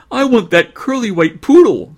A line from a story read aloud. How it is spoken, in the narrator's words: cried a fat little girl in pigtails